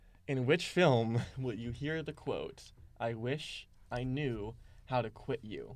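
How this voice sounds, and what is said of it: Usual voice. Nothing is said of it.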